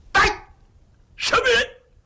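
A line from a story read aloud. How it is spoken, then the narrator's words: Loud stern shout. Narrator (Chinese): 云瑞高声断喝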